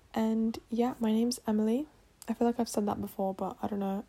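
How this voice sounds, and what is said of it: Mild British accent. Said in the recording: “I have quite a little bit of a British accent. It's not too strong, hopefully ... my accent doesn't sound very Polish”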